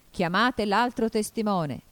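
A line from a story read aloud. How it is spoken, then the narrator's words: Shouted by the king. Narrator (Italian): gridò il re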